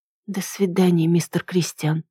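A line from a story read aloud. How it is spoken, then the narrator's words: Barely audible. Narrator (Russian): ответила я уже еле слышно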